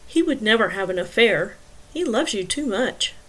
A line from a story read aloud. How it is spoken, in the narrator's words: Devlin said softly